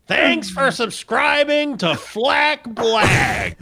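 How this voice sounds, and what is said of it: Gilbert Gottfried impression. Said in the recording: “That was probably the best impression that we've had of Gilbert. That was Godfrey. Pretty good.”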